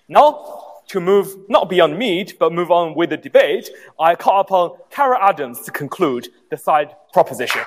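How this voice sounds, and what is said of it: Asian accent blended with English. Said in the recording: “It's a blend of an Asian accent with English. ... pronounces the L's as R's”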